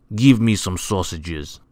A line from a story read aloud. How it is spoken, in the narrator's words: snapped Mr